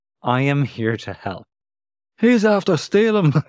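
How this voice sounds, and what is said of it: Put-on accent. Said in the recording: “Sorry for doing that accent.”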